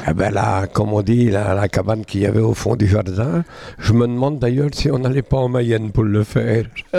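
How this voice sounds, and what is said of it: Put-on regional French accent. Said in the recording (French): “vous prenez l'accent”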